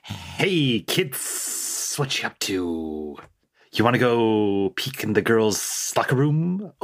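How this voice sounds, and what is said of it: Ghost character with weird accent. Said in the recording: “haunts Seth for the rest of the game, but with a weird accent”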